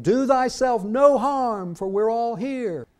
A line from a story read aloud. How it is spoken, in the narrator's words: Paul cried with a loud voice, saying